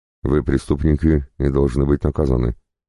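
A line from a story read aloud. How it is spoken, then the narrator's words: Calm, confident reply. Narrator (Russian): спокойно и уверенно ответил пленник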